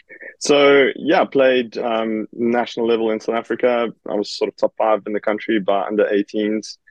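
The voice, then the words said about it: South African accent. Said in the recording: “you were from South Africa originally. It's hard to pick up your accent, I'm joking.”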